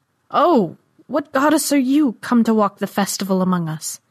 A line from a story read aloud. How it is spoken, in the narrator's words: Jaren cried